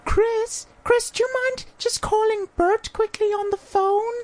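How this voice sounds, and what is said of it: Imitates another person's voice, womanly. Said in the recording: “That's a terrible accent ... That's my Caitlyn Jenner impersonation ... Caitlyn does not have a woman voice”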